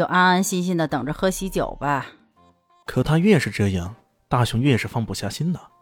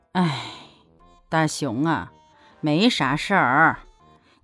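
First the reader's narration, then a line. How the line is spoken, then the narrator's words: Sighing. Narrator (Chinese): 母亲叹了口气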